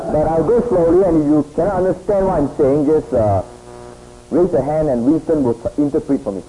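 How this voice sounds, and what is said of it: Foreign accent in English. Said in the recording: “I hope you can understand my English because uh, we speak with a different accent.”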